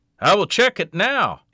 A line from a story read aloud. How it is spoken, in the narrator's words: he called out behind her